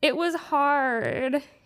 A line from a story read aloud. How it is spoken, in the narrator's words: he whined